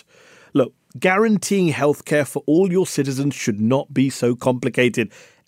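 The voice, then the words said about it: British accent. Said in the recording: “I'm from the UK. Maybe the accent gave me away.”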